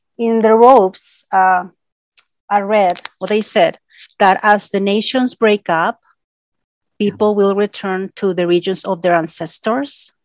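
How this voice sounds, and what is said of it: Non-native accent. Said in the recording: “you can see I have an accent. I'm not from here.”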